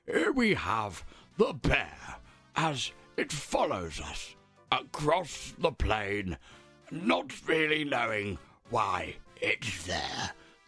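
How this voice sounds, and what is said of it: David Attenborough impression. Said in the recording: “my David Attenborough impression”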